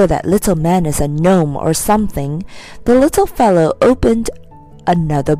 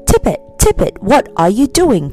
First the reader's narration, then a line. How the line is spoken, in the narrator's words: cried the newcomer in a strange deep voice like the rumbling of faraway thunder